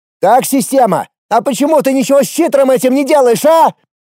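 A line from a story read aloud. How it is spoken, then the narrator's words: Shouted skyward question. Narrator (Russian): Прокричал в небо свой вопрос Эрик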